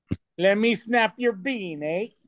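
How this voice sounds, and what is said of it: Put-on Canadian accent. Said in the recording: “that's not even Canadian accent, is it?”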